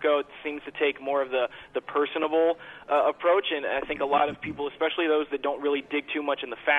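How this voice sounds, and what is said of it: Usual voice. Nothing is said of it.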